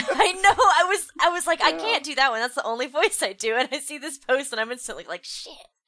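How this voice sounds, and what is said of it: Usual voice. Nothing is said of it.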